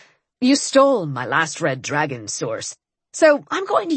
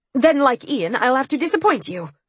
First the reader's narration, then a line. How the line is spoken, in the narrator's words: I snapped